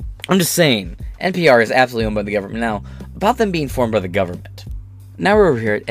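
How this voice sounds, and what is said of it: Usual voice. Nothing is said of it.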